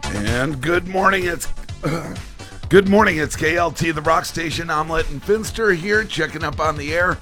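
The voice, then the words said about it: Rough, not yet warmed-up voice. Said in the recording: “I know you guys are cringing on my voice, I know. I haven't really spoken since yesterday. My voice is here... It's somewhere, but I've never really spoken very much yet today. But it's going to warm up”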